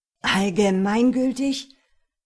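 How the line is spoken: Mocking. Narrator (German): höhnte Gorgias

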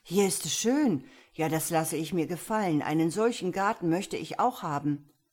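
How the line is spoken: Exclamation. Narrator (German): rief er aus

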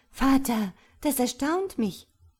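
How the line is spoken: Calling out. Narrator (German): rief sie

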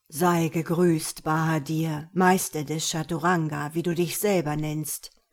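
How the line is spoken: Rough-voiced ruler. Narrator (German): sagte der Schah mit einer rauen Stimme

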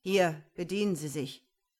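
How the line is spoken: Gruff demand. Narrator (German): forderte barsch auf

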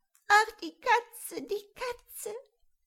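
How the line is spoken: Wailing. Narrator (German): jammerte Röschen

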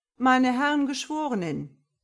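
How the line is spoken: Triumphant, sly call. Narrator (German): rief Nagelstock triumphierend und listig

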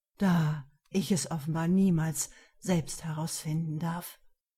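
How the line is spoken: Regretful tone. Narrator (German): Mit bedauerndem Ton fügte er hinzu

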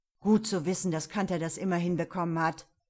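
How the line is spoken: Growled. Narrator (German): knurrte er

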